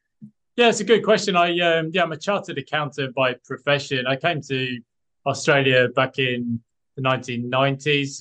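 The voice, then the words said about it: Speaks with a noticeable accent. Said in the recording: “I can hear an accent there.”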